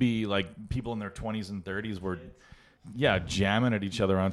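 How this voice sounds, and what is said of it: Usual voice. Nothing is said of it.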